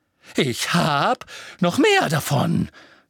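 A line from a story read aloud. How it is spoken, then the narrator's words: Screeching from above. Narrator (German): kreischte Professor über das Geländer gebeugt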